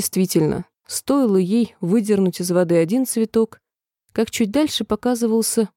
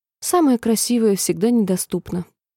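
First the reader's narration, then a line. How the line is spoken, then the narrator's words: Sigh. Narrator (Russian): вздохнула Алиса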